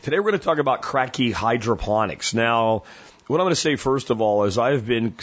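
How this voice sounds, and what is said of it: Slightly worn, hoarse voice. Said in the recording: “my voice is a little hammered. It's not terrible, though”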